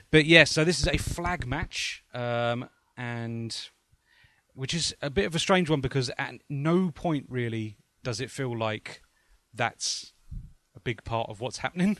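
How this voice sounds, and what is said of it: English accent. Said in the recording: “Sorry about the English accent. I'm not pronouncing classy as classy.”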